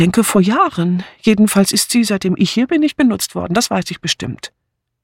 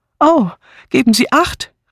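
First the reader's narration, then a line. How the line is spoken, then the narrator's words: Called out. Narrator (German): rief Miss Banner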